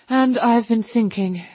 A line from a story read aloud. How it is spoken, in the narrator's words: she added rather nervously